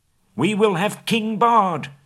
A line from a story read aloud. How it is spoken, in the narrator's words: the people near at hand shouted in reply